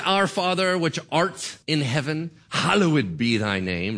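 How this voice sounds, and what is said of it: Put-on British accent. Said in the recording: “you have to say it in a British accent”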